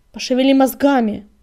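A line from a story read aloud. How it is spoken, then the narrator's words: Snapping. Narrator (Russian): огрызнулся Крутобок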